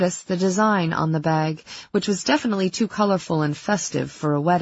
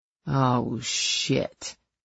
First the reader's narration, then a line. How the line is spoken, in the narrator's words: Carrie muttered